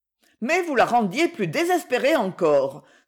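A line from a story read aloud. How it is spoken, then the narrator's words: Energetic exclamation. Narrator (French): s'écria Aliette avec énergie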